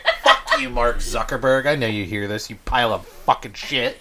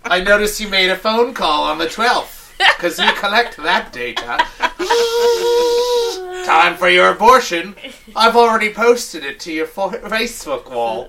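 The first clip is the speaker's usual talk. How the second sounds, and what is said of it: Imitates another person's voice, accented. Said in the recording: “I don't know why I have this accent now.”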